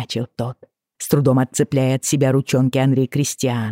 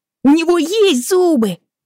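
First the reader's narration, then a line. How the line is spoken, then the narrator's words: Heated shout. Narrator (Russian): горячо выкрикнул Айден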